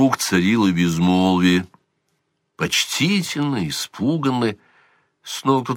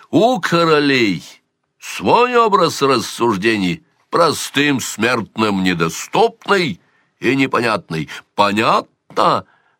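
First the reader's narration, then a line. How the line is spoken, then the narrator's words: Barking, losing temper. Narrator (Russian): рявкнул он, не сдержавшись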